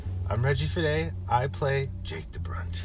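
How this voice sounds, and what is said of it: Jake DeBrunt character voice. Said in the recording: “in your Jake DeBrunt voice”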